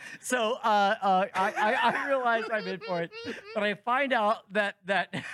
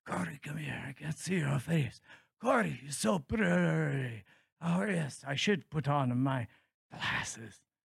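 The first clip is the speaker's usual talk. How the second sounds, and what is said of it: Frail old man character voice. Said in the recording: “What accent am I doing? ... An infirmed old man? ... That's a winner.”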